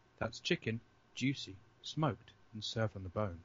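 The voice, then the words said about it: Imitates a TV cooking show narrator. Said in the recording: “in my best MasterChef voice”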